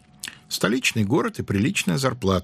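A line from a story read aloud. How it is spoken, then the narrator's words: Quiet. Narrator (Russian): сказал Бородатый негромко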